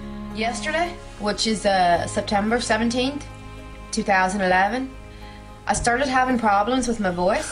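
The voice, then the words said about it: Wavering British or Irish sounding accent. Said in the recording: “she thought she was British. Here, Irish. ... You can't stay in the one accent”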